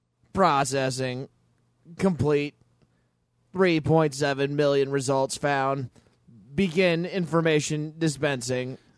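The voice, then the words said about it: Robot voice. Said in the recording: “Can you stop talking like that? ... which can only speak in robot voice.”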